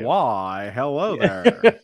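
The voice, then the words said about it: Foppish old-time transatlantic radio voice. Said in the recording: “that weird voice I was just doing there... transatlantic accent... old radio guy... a little foppish”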